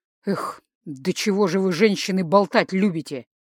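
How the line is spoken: Displeased grumbling father. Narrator (Russian): Недовольно проворчал отец

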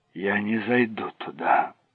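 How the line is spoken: Whisper. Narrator (Russian): прошептал Дэнни

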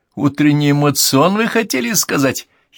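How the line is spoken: Giggling. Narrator (Russian): хихикнул

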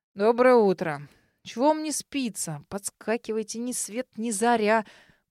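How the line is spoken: Old-mannish yawning grumble. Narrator (Russian): по-стариковски проворчал друг, не переставая зевать

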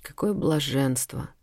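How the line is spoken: Overwhelmed whisper. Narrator (Russian): не выдержав, прошептала пленница

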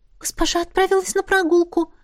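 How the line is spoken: Timid babble. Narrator (Russian): пролепетала

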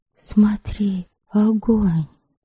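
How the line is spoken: Sudden whisper. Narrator (Russian): вдруг шепнула Ольгица

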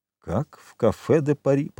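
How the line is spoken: Muttering. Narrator (Russian): пробормотал Данглар

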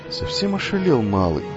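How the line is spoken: Old woman's indifferent mutter. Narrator (Russian): пробормотала старая повариха, равнодушно наблюдавшая за происходящим

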